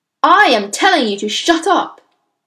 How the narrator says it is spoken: the trunchbull roared

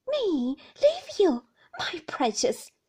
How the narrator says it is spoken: cried Peggotty

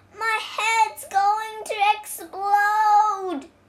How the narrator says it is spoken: he cried

